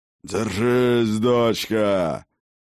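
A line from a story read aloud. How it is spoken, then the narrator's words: Distant roar from behind. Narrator (Russian): проревел откуда-то с другой стороны огромной туши отец богов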